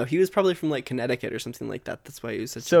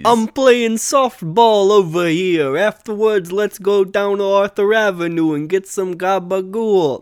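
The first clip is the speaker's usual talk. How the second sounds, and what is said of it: Put-on New York accent. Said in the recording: “like a New York accent kind of thing”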